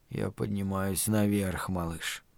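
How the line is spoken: Muttered. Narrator (Russian): пробормотал Стью

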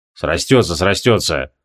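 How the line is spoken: Irritated grumbling. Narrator (Russian): Раздраженно бурчал

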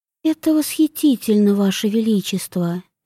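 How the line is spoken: Quiet reply. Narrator (Russian): тихо ответила Вивьен

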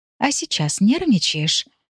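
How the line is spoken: Whispered. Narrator (Russian): прошептала я

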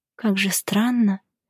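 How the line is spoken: Quiet whisper. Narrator (Russian): тихо прошептала

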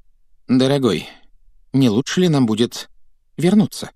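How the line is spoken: Timid question. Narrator (Russian): Робко поинтересовалась тетя Петунья

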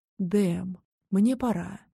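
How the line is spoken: Purring. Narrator (Russian): промурлыкала

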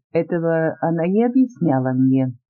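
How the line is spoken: Calm reply, empress. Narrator (Russian): спокойно ответила императрица

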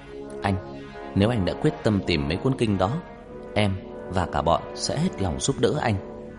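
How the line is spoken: Firm despite fear. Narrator (Vietnamese): Ân rùng mình sợ hãi, nói quả quyết

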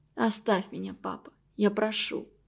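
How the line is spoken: Whispered. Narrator (Russian): прошептала

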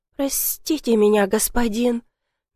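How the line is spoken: Very quiet. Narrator (Russian): добавила совсем тихо

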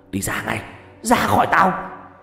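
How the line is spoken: Frantic screaming. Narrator (Vietnamese): ba đang ôm đầu la hét

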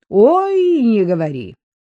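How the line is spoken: Mocking reply. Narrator (Russian): В тон ей насмешливо ответил Виктор

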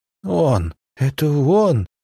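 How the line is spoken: Sobbing. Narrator (Russian): всхлипнула она

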